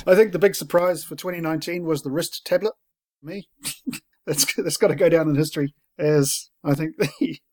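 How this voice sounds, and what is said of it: Australian accent. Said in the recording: “My accent, no one can understand it... It's that Australian accent.”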